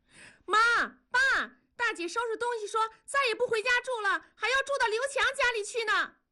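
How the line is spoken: Shouting. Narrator (Chinese): 南方喊道

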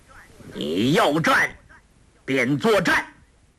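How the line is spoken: Loud, after a pause. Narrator (Chinese): 顿了一顿，大声道

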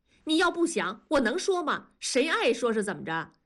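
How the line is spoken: Angry shouting. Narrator (Chinese): 文丽也气恼地嚷道

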